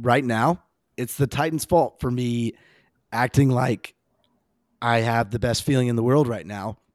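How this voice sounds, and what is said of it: Hoarse voice. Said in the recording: “my voice is a little hoarse, I was at the Vols game. My voice is a little hoarse.”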